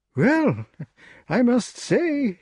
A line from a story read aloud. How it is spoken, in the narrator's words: exclaimed the king